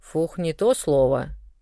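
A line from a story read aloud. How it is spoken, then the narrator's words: Displeased grumbling. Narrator (Russian): недовольно заворчал фамильяр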